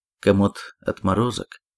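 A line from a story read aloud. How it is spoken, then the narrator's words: Plain. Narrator (Russian): сказал я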